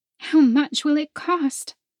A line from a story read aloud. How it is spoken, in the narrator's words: the woman said, her tone desperate